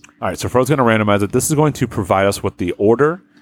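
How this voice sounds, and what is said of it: Usual voice. Nothing is said of it.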